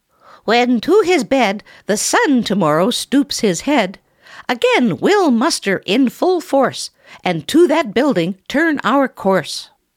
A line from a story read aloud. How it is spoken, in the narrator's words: Another cried